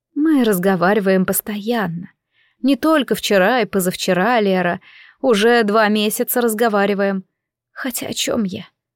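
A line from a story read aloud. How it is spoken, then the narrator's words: Sad wry smile. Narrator (Russian): Сестра печально усмехнулась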